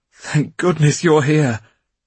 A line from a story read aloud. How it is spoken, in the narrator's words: he cried